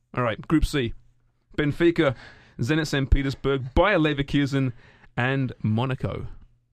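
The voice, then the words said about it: Speaks with a noticeable accent. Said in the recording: “just because of my accent”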